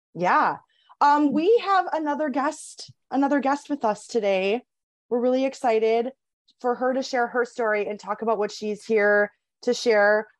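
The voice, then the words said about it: Hoarse, froggy voice. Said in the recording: “I'm feeling a little froggy today ... pardon my voice.”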